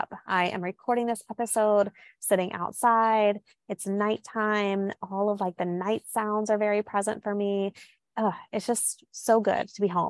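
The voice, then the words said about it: Southern American drawl. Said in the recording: “you might even hear like more of a southern drawl, which definitely tends to be more pronounced when I am home”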